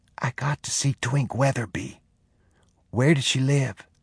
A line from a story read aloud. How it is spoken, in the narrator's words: He whispered